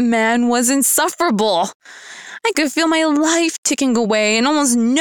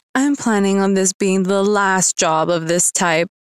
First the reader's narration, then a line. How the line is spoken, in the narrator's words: I sighed and said